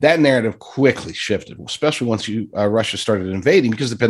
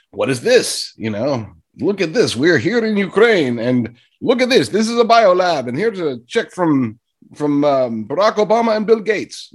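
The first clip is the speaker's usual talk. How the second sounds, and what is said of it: Poor imitation of Russian accent. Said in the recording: “that was a terrible accent. Don't, that wasn't even close to a Russian accent”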